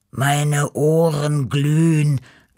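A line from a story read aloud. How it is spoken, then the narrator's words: Groaning. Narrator (German): stöhnte Beppo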